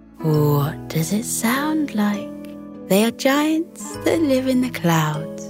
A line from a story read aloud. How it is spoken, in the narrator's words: Bella purred with amusement and answered